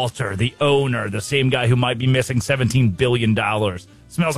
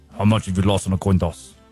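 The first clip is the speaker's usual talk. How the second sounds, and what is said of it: Imitates a film character's accent. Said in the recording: “Unique accent.”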